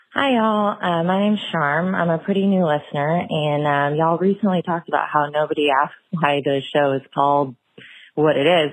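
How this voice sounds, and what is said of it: Southern American accent. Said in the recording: “the y'all southern accent”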